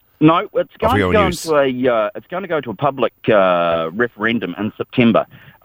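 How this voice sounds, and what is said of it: New Zealand accent. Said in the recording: “as you can tell from my accent, I'm not from around here. I'm from New Zealand”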